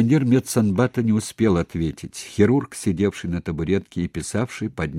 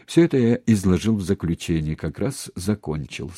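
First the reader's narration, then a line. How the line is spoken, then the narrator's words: Plain. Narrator (Russian): сказал хирург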